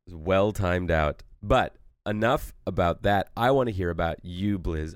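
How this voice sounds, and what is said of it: Congested voice. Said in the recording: “as you can tell from the sound of my voice, I have a cold”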